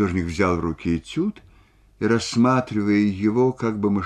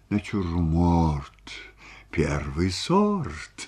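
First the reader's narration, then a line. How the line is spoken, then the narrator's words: Muttering while rhyming. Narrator (Russian): бормотал он, подбирая рифму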